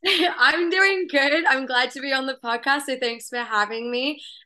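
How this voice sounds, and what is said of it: Australian accent. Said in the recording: “as you can tell, I have a bit of an accent. So I'm originally from Australia”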